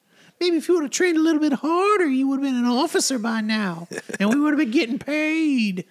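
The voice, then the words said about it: Deliberately bad character impression. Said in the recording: “What a terrible, terrible bit of impression we just did. Just terrible.”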